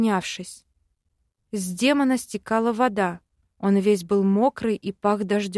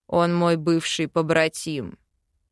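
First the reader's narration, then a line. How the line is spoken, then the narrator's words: Gloomy. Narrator (Russian): мрачно сказал Велитар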